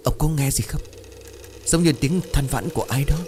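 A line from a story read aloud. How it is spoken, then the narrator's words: Trembling, frightened. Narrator (Vietnamese): Bà tái mặt vội run rẩy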